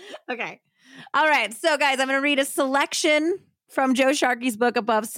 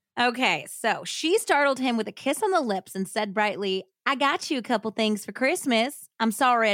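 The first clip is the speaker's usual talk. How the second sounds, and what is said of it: Put-on Southern hillbilly accent. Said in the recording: “Where's your Southern accent? ... Where's your hillbilly accent? ... I'm going to attempt a hillbilly accent.”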